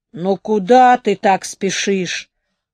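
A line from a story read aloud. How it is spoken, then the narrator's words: Sleepy, displeased grumble. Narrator (Russian): недовольно проворчал сонный Вэч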